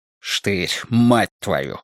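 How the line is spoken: Hissed. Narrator (Russian): прошипел Страйк

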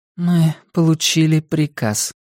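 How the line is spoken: Dead flat voice. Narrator (Russian): мертвым голосом повторила она

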